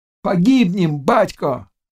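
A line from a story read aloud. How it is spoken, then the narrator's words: Cossacks shouting. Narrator (Russian): крикнули казаки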